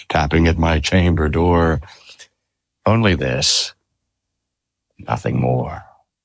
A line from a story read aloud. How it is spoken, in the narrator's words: I muttered